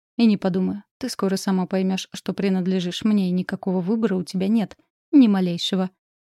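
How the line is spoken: Smug snort. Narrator (Russian): хмыкнул Ренар

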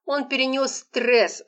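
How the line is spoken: Stern. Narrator (Russian): строго ответила Лола

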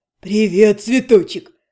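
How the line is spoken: Chuckling friend. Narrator (Russian): хохотнул друг

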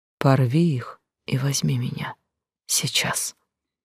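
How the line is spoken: Quiet request. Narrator (Russian): Незнакомка тихо попросила

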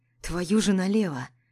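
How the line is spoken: Animal-like growl. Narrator (Russian): С рычанием зверя

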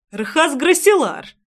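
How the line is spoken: Exclaimed. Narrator (Russian): воскликнул Трейсван

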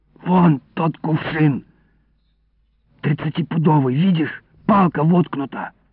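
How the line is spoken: Whispered. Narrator (Russian): шепнул я Илико

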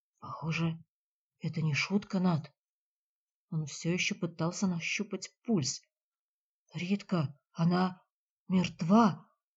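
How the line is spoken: Hoarse, gulping. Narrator (Russian): заглотнув хрипло, сообщил Джиль

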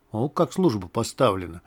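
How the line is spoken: Whisper. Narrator (Russian): шепнул Листу скворец

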